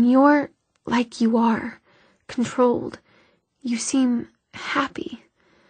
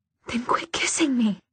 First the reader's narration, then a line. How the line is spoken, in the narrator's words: she gasped